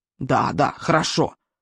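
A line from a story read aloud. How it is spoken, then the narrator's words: Grumbling. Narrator (Russian): проворчал Стоик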